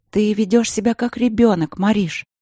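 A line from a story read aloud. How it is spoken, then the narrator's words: Soft. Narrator (Russian): мягко проговорила Василина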